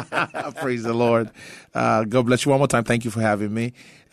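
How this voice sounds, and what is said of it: Nigerian English accent. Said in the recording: “Your accent tells me you're not from around here ... I'm originally from Nigeria”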